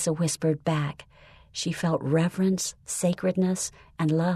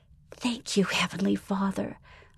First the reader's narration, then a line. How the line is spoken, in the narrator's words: Melissa whispered